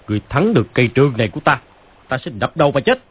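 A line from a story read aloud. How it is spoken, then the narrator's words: Angry. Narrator (Vietnamese): Phàn Nhất Ông tức giận nói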